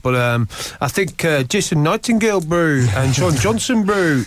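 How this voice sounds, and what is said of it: Bad put-on New Zealand accent. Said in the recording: “that's the worst New Zealand accent ever in the history of all.”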